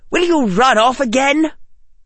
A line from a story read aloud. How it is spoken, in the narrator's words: Amelia snapped